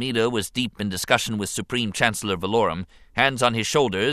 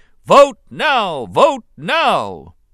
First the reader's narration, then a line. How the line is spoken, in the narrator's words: The Republic Senate erupted anew, chanting loudly